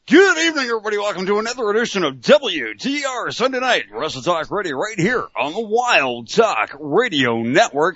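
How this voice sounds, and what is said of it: Exaggerated radio announcer voice. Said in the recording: “radio voice ... That was a bad Mauro Ranallo impression ... it sort of morphed into Mauro Ranallo ... this is starting to sound like Mauro”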